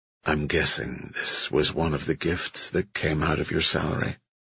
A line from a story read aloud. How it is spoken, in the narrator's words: Evan said quietly